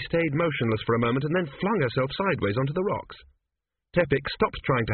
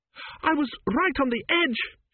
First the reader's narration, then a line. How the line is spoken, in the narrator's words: she wailed